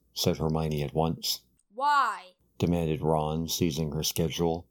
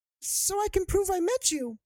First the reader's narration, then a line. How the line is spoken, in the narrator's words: said Colin Creevy eagerly